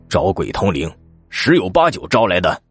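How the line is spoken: Sighing, angry. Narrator (Chinese): 向大哥叹了一口气，怒道

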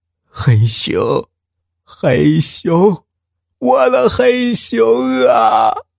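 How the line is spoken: Frantic wailing. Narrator (Chinese): 老人发疯似的，哭喊着

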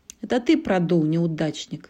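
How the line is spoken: Giggling taunt. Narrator (Russian): хихикнула Ванилопа

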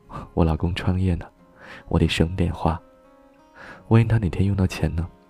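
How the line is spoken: Smiling. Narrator (Chinese): 他笑着说

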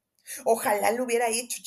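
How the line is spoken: Angry shriek. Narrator (Spanish): chilló, y apretó los puños

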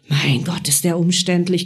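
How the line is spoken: Growled. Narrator (German): knurrte ich

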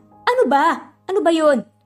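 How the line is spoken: Asking. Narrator (Tagalog): Tanong nga nito

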